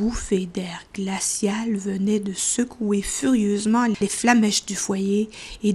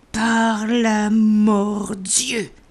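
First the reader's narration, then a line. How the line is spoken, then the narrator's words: Thunderous gruff exclamation. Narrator (French): s'écria-t-il d'une voix tonnante et rogue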